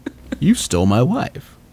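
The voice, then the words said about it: Cool guy character voice. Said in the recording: “in my cool guy voice.”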